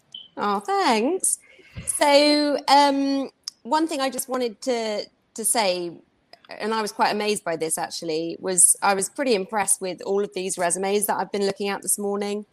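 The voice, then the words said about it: Speaks with a noticeable accent. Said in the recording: “I like her accent.”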